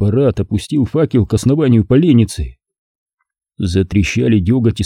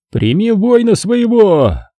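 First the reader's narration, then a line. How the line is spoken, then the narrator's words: Thundering. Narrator (Russian): Прогремел еще раз парад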